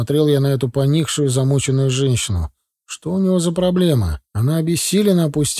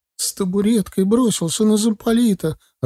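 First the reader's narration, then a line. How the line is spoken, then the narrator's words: Sobbing woman. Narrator (Russian): рыдала офицерская жена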